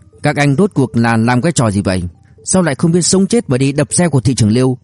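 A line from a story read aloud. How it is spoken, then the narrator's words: Fierce angry shout. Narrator (Vietnamese): Lưu Ngạn Trực sắc mặt lập tức trầm xuống, hung hăng quát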